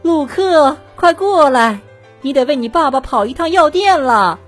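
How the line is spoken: Mother calling from indoors. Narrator (Chinese): 他妈妈在屋里叫他了

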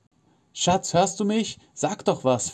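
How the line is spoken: Pleading. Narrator (German): fleht an

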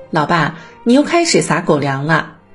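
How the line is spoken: Teasing laughter. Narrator (Chinese): 我和弟弟在家庭群里笑他

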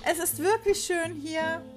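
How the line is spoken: Calling out. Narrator (German): rief sie ihrem Ehemann und der fünfjährigen Peroscha zu

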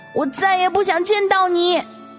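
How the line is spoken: Shouting. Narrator (Chinese): 我大声的喊

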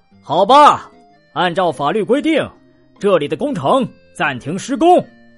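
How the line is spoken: Loud announcement. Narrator (Chinese): 他大声宣布

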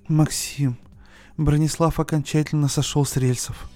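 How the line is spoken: Moaning over phone. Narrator (Russian): Простонала в трубку Олеся

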